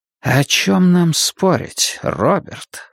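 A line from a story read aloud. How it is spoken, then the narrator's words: Silky, insinuating. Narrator (Russian): вкрадчиво поинтересовался Сарасти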